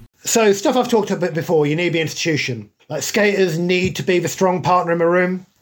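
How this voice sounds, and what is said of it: Midlands northern drawl. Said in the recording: “my Midlands northern drawl”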